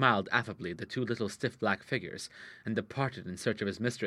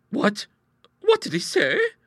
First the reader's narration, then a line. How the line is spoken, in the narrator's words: gasped Bertha